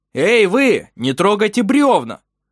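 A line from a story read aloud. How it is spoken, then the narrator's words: Shouting toward river. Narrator (Russian): закричал Вемунд Тарк в сторону речки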